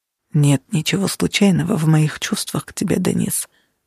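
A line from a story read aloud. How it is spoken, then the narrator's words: Whisper. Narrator (Russian): прошептал он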